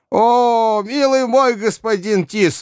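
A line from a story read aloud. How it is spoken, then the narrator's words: Old woman shouting. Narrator (Russian): закричала ему старуха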